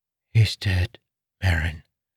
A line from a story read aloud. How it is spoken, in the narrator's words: Renarin whispered